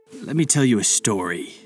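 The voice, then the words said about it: Mysterious deep voice. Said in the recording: “said a mysteriously deep voice.”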